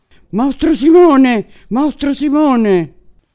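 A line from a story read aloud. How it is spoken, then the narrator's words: Wicked queen's terrible shout. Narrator (Italian): la cattiva regina gridò con voce tremenda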